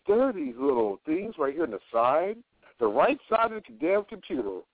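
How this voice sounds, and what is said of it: Sarcastic voice. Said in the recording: “put on my little sarcastic voice. So let me put on my sarcastic voice.”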